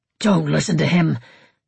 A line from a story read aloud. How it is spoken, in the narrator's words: Eivind snarled